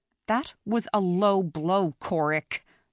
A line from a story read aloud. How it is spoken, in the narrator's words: Lyra said through clenched teeth